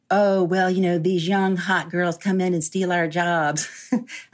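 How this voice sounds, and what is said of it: Put-on country accent. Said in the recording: “I'm doing that in a country accent because I'm country”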